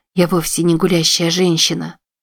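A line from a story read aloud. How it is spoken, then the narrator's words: Whisper. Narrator (Russian): шептала Уилла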